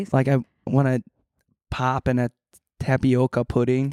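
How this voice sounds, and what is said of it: Put-on Midwestern Minnesota accent. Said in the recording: “There's like a Midwestern one too ... I have to like. Become another person. ... That's like Minnesota.”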